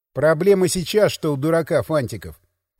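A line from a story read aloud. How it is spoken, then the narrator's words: Grumble. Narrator (Russian): проворчал Николай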